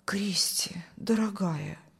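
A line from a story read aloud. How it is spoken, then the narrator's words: Whispering. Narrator (Russian): шептал пастор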